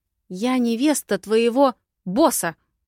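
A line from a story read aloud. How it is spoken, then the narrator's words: Near shout. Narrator (Russian): Почти выкрикнула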